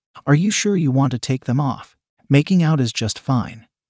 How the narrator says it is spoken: I said

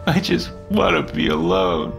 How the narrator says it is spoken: he said through his sobbing

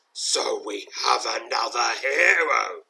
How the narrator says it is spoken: snarls, his deep, echoing voice, not far akin to the rumble of thunder

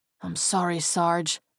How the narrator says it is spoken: he whispered

